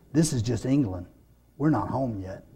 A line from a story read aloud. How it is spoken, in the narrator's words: she said softly